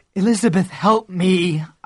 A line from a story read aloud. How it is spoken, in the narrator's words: I groaned